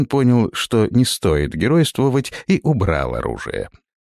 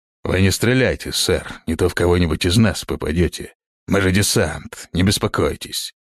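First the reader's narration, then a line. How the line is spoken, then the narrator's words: Grumbling. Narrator (Russian): проворчал третий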